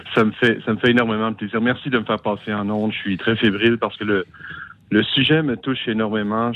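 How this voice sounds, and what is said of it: Canadian French accent. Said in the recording (French): “depuis le Canada ... cet accent venu de...”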